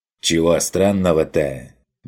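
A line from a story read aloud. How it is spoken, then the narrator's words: Rude snap. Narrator (Russian): довольно неучтиво огрызнулся крестьянин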